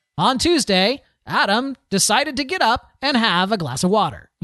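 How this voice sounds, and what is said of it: Announcer-style scripted reading voice. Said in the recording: “he reads it in a style that's very obviously announcery reading ... that kind right. of announcery thing”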